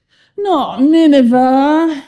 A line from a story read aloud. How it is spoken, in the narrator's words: he groaned